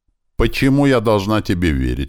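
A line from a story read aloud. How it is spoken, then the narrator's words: Defiant question. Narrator (Russian): вызывающим тоном осведомилась Энария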